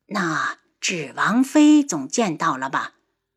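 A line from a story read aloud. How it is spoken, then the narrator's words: Sighing question. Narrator (Chinese): 太后兀自叹气，又问道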